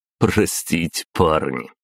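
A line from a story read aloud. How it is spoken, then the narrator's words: After laughing. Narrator (Russian): просмеявшись, ответил я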